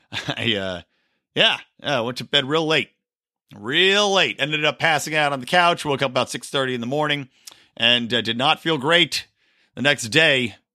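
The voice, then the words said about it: Tired, rough-sounding voice. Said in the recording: “You can probably hear in my voice that I am still nursing the two-day hangover.”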